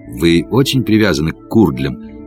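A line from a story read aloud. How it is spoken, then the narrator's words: Quiet question. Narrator (Russian): спросил я тихо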